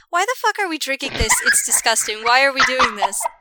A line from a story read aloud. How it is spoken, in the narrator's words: takes a very delicate sip of hers, and then she calmly swallows, and then she puts the tea cup down on the table, and she says